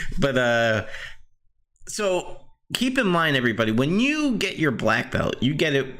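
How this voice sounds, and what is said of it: Usual voice. Nothing is said of it.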